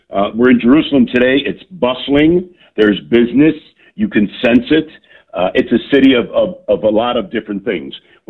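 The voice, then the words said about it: Loud voice with American accent. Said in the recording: “my loud voice, and they hear the American accent”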